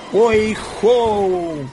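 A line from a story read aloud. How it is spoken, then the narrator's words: Two voices exclaiming. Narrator (Russian): воскликнули Фред и Элли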